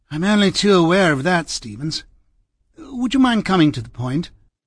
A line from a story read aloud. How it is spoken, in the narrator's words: Cardinal gave a sigh and said